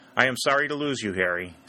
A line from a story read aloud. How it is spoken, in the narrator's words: said Colonel Talbot